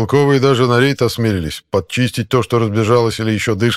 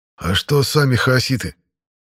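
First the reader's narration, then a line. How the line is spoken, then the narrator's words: Hoarse wheeze. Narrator (Russian): прохрипел я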